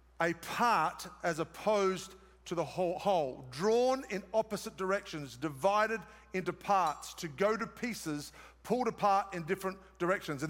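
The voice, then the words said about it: Australian accent. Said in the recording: “It's my Australian accent.”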